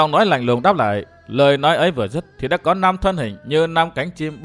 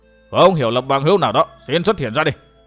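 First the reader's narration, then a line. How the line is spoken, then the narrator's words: Very loud shout. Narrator (Vietnamese): Trịnh Nguyên Bình quát lên thật to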